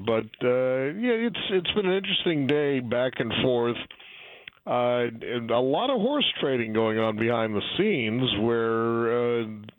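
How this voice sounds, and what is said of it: Hoarse, fading voice. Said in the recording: “I'm sorry I'm losing my voice after a week of talking a lot”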